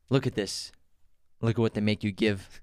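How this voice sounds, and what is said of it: Impression of Clive Owen. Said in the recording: “Good impression. ... Clive Owen in Born Identity.”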